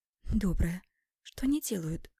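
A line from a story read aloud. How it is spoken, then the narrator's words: Whispered question. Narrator (Russian): Спрашиваю шепотом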